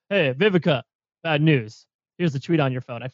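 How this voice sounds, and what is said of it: Imitates another person's voice. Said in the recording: “a pretty good Donny Douche impression”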